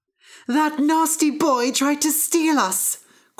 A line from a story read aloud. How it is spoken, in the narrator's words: cried the harp